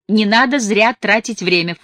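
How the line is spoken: Scoffing snort. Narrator (Russian): фыркнула мать

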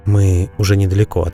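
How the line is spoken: Quiet. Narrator (Russian): тихо ответил он

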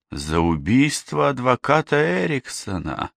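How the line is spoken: Inner groan. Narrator (Russian): простонала она про себя

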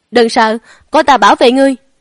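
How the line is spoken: Loud shout. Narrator (Vietnamese): Chiến Bắc Liệt hét lớn

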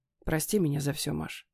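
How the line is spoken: Hoarse man. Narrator (Russian): хрипло произносит он

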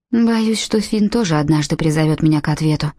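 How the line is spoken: Sighing. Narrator (Russian): вздохнула Урсула

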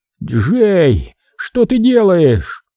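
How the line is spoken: Groaning. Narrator (Russian): Кишири застонал

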